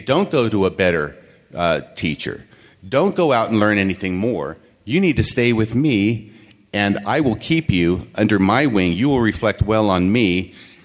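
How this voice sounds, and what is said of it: Sarcastic delivery. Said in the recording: “now I'm being sarcastic”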